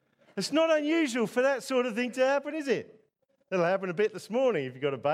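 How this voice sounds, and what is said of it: Usual voice. Nothing is said of it.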